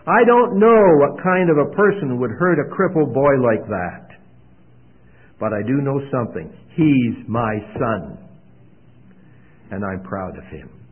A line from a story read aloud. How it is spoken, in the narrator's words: he said in a loud voice